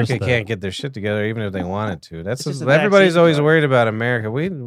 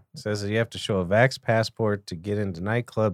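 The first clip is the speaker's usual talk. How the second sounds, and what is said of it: Put-on Scottish accent. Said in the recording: “that's my Scottish accent.”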